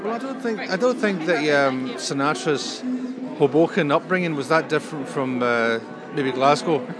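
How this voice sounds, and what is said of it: Scottish accent. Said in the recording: “with a Scottish accent”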